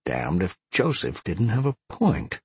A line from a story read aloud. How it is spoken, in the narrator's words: he mumbled